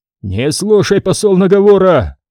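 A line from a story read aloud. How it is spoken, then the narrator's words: Yelling prince. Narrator (Russian): завопил князь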